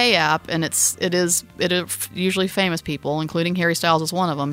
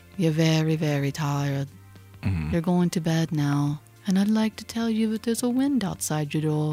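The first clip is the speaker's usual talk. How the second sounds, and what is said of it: Terrible soft soothing British accent. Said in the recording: “soft, relaxing tones ... my terrible British accent, just absolutely terrible”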